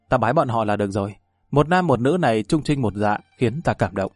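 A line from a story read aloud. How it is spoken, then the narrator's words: Soft, smiling. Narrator (Vietnamese): Ngọc Già đột nhiên mỉm cười, khẽ nói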